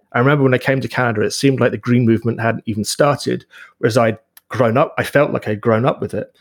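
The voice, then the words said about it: Non-Canadian foreign accent. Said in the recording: “you can tell from my accent, I emigrated here”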